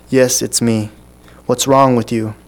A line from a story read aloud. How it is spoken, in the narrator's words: The man sighed